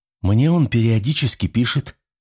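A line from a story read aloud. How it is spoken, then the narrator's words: Timid, surprised. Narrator (Russian): робко и с удивлением заметила Мария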